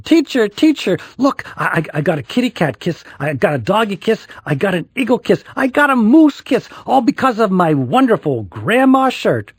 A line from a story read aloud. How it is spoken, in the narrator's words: Lacey ran inside and yelled